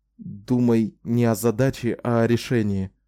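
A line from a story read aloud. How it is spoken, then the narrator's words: Forced out, strained. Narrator (Russian): выдавил он наконец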